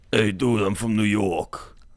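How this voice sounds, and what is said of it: Put-on New York accent. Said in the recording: “I don't even know if that's a true New York accent ... New Yorkanese, that's the official name for the accent.”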